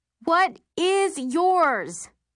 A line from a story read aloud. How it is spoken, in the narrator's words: I yell directly into her ear